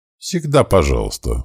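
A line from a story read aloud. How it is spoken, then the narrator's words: Brisk, cheerful. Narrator (Russian): бодро ответил герцог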